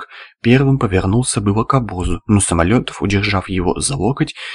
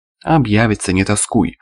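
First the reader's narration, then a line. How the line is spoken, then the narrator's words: Amused snort. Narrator (Russian): хмыкнул Самолетов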